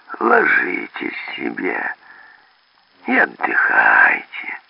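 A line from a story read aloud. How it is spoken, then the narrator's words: Gentle burred offer. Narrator (Russian): заговорила она картаве, и так это ласково им предложила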